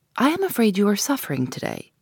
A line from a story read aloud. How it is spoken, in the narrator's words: said the Count